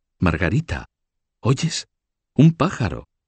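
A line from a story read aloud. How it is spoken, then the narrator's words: Sudden exclamation after sobbing. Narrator (Spanish): Blanca, que podía súbitamente dejar de sollozar porque un pájaro cantaba del otro lado del muro y exclamar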